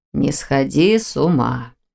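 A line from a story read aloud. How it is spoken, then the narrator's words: Through gritted teeth. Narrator (Russian): процедил ректор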